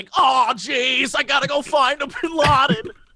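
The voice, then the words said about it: Imitates another person's accent. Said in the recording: “Nick Cage doing an accent that's like”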